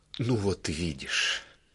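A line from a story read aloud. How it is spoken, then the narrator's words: Smiling, barely audible. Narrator (Russian): улыбнулся и добавил чуть слышно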